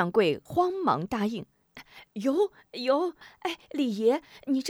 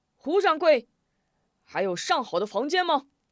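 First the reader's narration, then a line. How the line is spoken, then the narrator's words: Calling out. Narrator (Chinese): 一进门便喊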